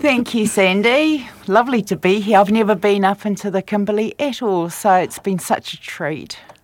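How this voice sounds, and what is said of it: Strong New Zealand accent. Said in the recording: “you may be able to tell from my accent, I'm from New Zealand, so I still have quite a strong Kiwi accent”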